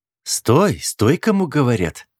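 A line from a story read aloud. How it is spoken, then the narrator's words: Sharp shout. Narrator (Russian): снова прикрикнула Эва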